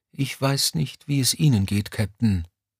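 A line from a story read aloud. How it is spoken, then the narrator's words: Quiet, not to wake. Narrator (German): sagte Mommsen leise, um den Ranghöheren nicht zu wecken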